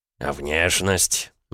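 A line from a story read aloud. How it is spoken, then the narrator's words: Gloomy interruption. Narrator (Russian): мрачно перебил его Князев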